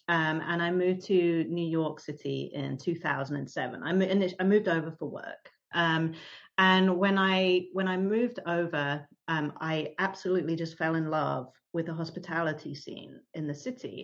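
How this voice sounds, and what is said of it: British accent, London. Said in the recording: “as you can probably tell from my accent, I'm originally from the UK. So I grew up in London.”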